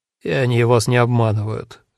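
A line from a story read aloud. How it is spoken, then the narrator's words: Gloomy reply. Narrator (Russian): мрачно ответил Лантрихе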